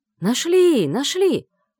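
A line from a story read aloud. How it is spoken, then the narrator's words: Joyful distant shout. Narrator (Russian): радостно донеслось из глубины леса, словно это было не тело черного мага, а клад с золотом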